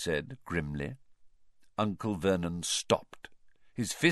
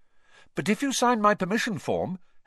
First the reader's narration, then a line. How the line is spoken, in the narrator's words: Harry went on quickly